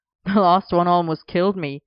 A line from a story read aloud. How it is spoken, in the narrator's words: Arthur laughed back